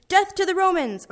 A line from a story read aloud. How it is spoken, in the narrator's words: was not screaming